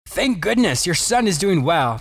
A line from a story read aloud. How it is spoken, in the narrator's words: the doctor happily informed the father